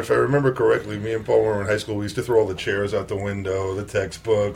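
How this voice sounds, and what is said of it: New York Brooklyn accent. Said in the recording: “I love hearing these two talk, because there was a story in the Times yesterday about how the New York accent is disappearing. I do not find that to be true ... my Brooklyn accent”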